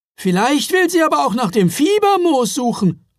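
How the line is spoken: Calling out. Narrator (German): rief er

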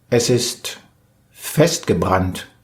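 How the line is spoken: Plain. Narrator (German): sagte der Mann

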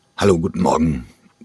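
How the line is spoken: Croaked. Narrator (German): krächzte er

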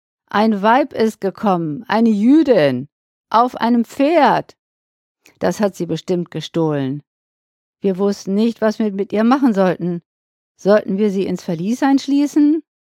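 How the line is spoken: Calling out. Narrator (German): rief entgegen

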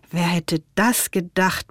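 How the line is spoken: Murmuring. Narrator (German): murmelte Ben

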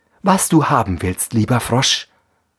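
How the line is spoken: Plain. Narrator (German): sagte

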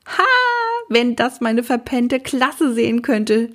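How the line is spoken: Shout. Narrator (German): schrie Maxe

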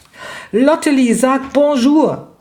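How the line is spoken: Shrieking. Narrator (German): kreischte Raffaela

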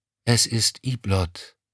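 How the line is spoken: Plain. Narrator (German): sagte sie

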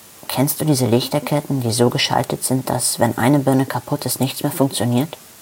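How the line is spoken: Plain. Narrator (German): fragte

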